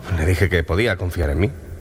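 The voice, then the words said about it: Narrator voice. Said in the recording (Spanish): “poner voz de narrador ... Perfecta, esa es una voz perfecta de narrador.”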